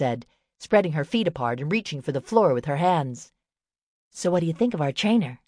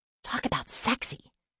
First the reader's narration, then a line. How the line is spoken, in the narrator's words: Nelly whispered